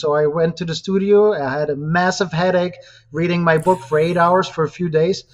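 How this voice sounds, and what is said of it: Speaks with a noticeable accent. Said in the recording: “you can even hear my amazing accent”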